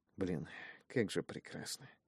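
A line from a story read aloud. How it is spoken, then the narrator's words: Hesitant mutter, foreign tongue. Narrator (Russian): пробормотал я на давно позабытом языке, силясь вспомнить, как звучат остальные его слова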